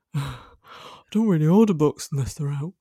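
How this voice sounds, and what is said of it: Attempted northern Liverpool-style accent. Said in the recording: “He's from the Wirral, which is near Liverpool. He doesn't sound like that. He does sound northern ... I just can't do my dad's accent. ... He sounded like a Beatle just then ... a bit of a Paul McCartney vibe there”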